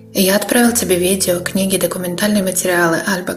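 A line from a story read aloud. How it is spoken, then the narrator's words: Plain. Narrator (Russian): говорит Дерек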